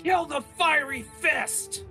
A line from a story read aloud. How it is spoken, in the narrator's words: hear them yell at each other